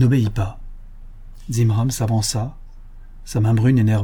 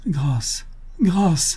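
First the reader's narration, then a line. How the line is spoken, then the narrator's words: Cried out movingly. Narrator (French): s'écria-t-elle d'une voix touchante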